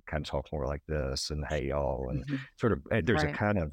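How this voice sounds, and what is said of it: Slow Southern accent. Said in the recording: “I certainly had much more of a Southern accent, you know, my old accent ... just slow it down ... Yeah, slow it”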